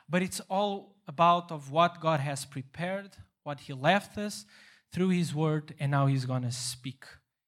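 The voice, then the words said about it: Non-native English accent. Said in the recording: “even my accent is kind of weird, and I don't have the English vocabulary”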